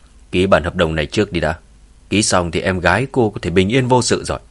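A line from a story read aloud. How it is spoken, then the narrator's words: Cold man's voice. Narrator (Vietnamese): gã đàn ông kia lạnh lùng nói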